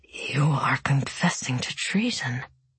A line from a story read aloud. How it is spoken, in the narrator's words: he whispered